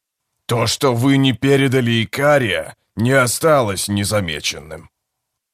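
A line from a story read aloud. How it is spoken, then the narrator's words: Grumbling. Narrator (Russian): Скрипач заворчал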